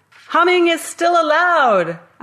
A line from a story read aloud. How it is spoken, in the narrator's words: I shouted